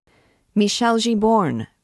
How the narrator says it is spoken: cried the angry poet

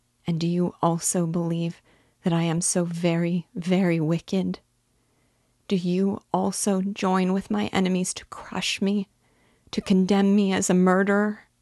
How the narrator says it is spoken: Her voice was suffocated with sobs

